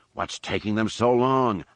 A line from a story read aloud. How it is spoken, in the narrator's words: Han growled, aiming his frustration at Lando